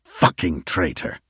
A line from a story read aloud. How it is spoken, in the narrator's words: Yadid spat